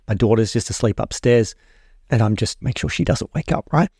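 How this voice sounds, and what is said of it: Quiet, near-whispered speaking voice. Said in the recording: “my voice is a little bit, whispering more than normal”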